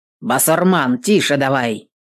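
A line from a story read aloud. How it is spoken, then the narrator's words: Cossack's rough shout. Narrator (Russian): Кто-то из казаков грубо окрикнул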